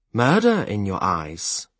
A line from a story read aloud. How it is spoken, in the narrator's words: he muttered